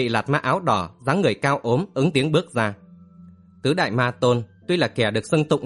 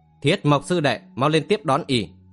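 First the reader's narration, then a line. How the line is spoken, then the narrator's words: Loud call. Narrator (Vietnamese): gọi lớn tiếng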